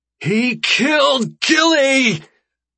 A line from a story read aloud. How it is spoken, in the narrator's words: I shriek